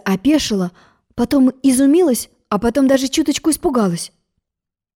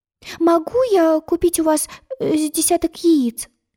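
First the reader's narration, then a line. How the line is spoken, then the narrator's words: Timid babble. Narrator (Russian): робко пролепетала она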